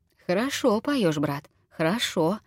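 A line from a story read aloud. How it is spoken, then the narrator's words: Warm affectionate remark. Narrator (Russian): ласково заметил Николай Иванович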